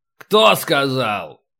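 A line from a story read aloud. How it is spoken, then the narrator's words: Barking. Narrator (Russian): рявкнул Полубой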